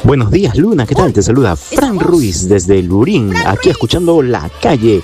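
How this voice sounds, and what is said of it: Radio announcer voice. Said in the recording (Spanish): “voz de locutor.”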